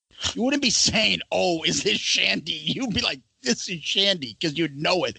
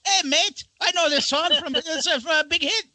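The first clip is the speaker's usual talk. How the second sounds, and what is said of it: Bad put-on Australian accent. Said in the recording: “Awful Australian accent.”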